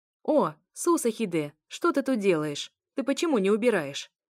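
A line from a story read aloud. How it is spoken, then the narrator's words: Powerful woman shouting from afar. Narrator (Russian): крикнула ей с другого конца кухни довольно стройная, но мощная женщина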